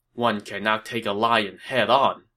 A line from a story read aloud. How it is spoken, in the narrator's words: Cao Cao, seeing how strong Sun Ce had become, sighed and said